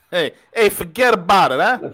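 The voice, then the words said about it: Put-on New York Brooklyn accent. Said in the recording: “You sound more paisan than I do ... That's that New York, Brooklyn accent.”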